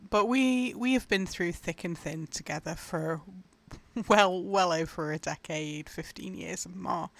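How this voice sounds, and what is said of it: Emotional, grieving voice. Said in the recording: “you can probably tell my voice is still really hard to talk about”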